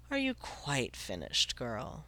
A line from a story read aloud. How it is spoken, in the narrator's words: it asked quietly